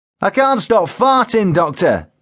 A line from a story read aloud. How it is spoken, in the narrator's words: he shouted